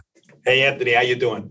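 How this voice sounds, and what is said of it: New York accent. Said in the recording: “your New York accent come through”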